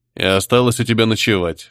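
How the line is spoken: Investigator's snort. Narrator (Russian): хмыкнул дознаватель

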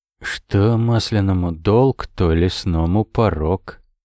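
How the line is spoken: Gloomy pronouncement. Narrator (Russian): мрачно изрек Камбаст

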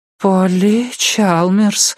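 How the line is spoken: Floating, dreamy voice. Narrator (Russian): отозвалась Кора плывущим голосом

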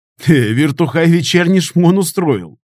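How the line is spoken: Chuckle from next cell. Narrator (Russian): хохотнул кто-то из соседней камеры

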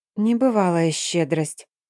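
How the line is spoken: Quiet muttering. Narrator (Russian): тихо пробормотала себе под нос

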